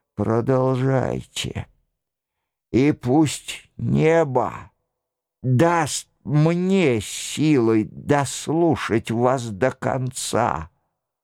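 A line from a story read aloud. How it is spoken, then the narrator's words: Hoarse, barely audible voice. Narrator (Russian): Нострадамус проговорил сиплым, едва различимым голосом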